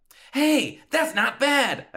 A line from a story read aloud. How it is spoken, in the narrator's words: I exclaimed